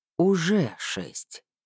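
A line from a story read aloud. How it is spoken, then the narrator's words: Heavy sigh. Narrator (Russian): тяжело вздохнул ученый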